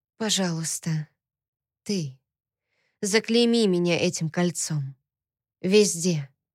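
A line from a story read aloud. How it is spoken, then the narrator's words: Whispered against lips. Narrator (Russian): Шепотом прямо ему в губы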